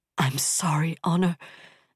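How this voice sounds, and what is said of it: Hoarse, breathless voice. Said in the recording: “hoarse, breathless.”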